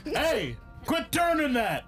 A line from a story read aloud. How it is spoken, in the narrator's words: I yell